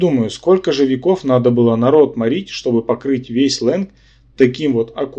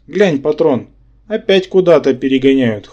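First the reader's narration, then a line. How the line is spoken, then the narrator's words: Wry grunt. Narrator (Russian): хмыкнул Рабан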